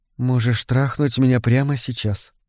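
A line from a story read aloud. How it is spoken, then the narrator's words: Quiet. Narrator (Russian): негромко сказала она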